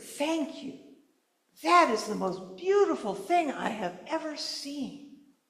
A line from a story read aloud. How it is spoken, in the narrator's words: his young daughter, and she whispered